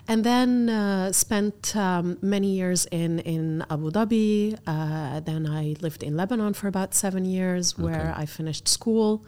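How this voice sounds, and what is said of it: Lebanese accent. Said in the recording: “your Lebanese accent ... The Lebanese accent”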